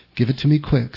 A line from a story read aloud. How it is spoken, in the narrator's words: said Della